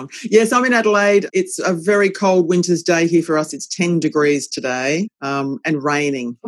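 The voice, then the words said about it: Strong Australian accent. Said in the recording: “my accent's probably very strong ... You're in Adelaide”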